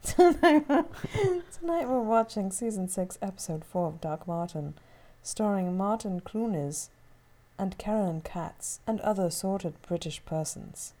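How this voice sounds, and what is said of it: Put-on British accent. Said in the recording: “you're doing a British accent, is it? ... I don't think you should do it again with the British accent. ... It's excellent.”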